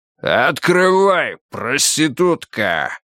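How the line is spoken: Booming deliberately rough bass. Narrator (Russian): Ужасающе громко прогудел из-за двери усиленной подъездной акустикой нарочито грубый бас

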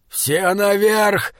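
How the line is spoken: Hoarse shout. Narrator (Russian): хрипло крикнул Бокун

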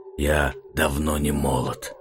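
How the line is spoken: Hoarse reply. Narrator (Russian): хрипло отозвался Арман

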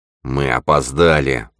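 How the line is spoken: Muttered. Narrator (Russian): пробормотал Лах

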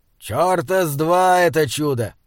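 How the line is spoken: Rough. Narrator (Russian): грубо сказал Изгрим

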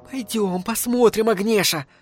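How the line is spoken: Pleading. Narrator (Russian): взмолилась пирожка

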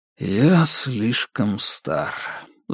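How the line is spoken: Sighing. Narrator (Russian): вздохнул Дейл

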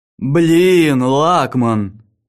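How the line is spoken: Drawled. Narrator (Russian): протянул Арктур

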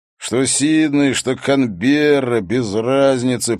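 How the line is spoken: Grumbling. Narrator (Russian): проворчал шериф

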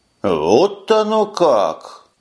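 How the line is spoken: Exclaiming. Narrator (Russian): воскликнул Таргул

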